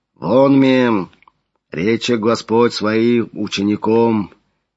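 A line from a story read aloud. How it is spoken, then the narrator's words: Low deep voice. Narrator (Russian): Низким глубоким голосом начал Флавиан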